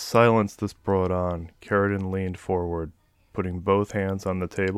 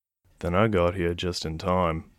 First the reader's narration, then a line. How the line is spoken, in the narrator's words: said evenly